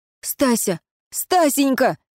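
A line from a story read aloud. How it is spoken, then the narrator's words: Shouting. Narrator (Russian): кричал Фьор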